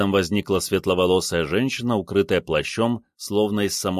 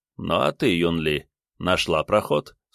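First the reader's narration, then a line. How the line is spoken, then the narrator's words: Plain. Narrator (Russian): спросил ее лидер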